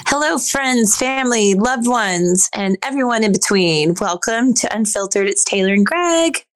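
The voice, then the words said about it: Raspy voice from a cold. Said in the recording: “You still sound raspy.”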